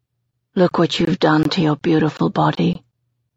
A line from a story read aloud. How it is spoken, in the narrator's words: he says quietly